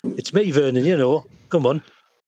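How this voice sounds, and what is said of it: Strong put-on Yorkshire accent. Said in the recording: “Inner monologue is a Yorkshireman. ... My psychic accent's coming through a bit too strong”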